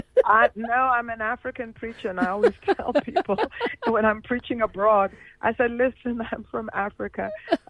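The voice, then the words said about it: African accent with North American mix. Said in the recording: “I know my accent is a bit strange, because I half grew up in Canada and I half grew up in the United States. But the bottom line is I'm African.”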